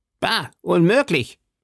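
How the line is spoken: Call. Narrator (German): rief Porthos

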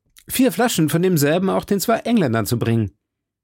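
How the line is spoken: Called after someone. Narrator (German): rief D'Artagnan ihm nach

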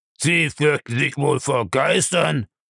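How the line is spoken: Grumbled. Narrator (German): brummte er

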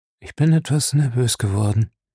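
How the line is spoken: Very calm answer. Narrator (German): antwortete sehr ruhig

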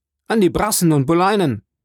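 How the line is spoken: Young man calling out. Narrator (German): Der junge Mann rief

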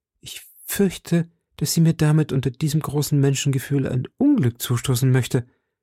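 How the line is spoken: Trembling voice. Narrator (German): antwortete die Königin mit bebender Stimme

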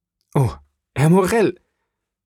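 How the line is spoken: Tearful young man's cry. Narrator (German): rief der junge Seemann und ergriff mit Tränen in den Augen

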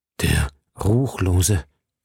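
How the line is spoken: Stammering. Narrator (German): stammelte

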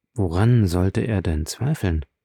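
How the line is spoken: Said quietly. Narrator (German): sagte Beauchamp leise zu Château Renaud

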